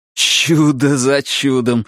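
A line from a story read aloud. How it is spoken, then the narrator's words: Said, then laughing. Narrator (Russian): сказал Деннис и рассмеялся над собственным случайным каламбуром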